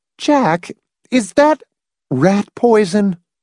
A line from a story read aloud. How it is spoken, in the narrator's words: He grinned shakily